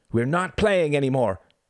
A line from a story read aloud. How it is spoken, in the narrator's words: he shouted